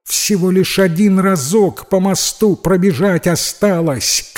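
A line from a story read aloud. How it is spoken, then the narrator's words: Shouted reply. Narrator (Russian): крикнула в ответ девушка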